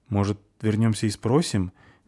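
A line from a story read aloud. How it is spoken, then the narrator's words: Hesitant suggestion. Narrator (Russian): неуверенно предложила Фаль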